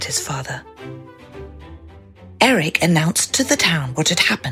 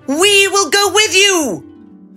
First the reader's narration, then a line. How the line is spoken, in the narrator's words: they cried